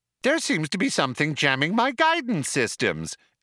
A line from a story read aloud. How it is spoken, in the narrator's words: explained the computer brightly